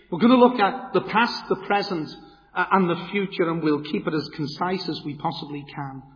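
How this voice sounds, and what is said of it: Liverpool (Scouse) English accent. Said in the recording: “you'll know by the accent, I'm not a Kulibaki man or from a Hockle, but from the great city of Liverpool”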